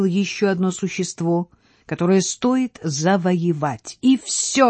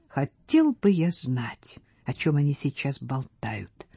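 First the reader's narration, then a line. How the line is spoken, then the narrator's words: Irritated whisper. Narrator (Russian): шептал раздраженно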